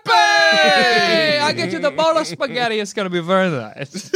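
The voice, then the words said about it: Old Italian man accent. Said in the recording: “That's if you're an old Italian man”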